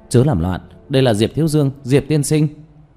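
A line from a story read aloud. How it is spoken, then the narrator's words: Hurried shouting. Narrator (Vietnamese): Giọng nói của Lý Vĩ vang lên, vội vàng la hét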